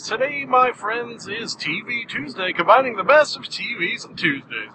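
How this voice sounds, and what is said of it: Exaggerated radio announcer voice. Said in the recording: “my Radio Man impression”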